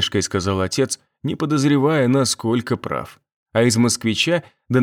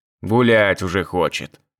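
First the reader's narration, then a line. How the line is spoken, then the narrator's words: Father, mock-stern, chuckling. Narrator (Russian): с притворной строгостью произнес отец и хмыкнул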